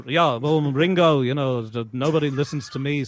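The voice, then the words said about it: Spot-on British accent impression. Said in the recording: “Spot on British accent”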